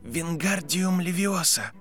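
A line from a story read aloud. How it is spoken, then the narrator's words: Whisper. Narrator (Russian): прошептал Гарри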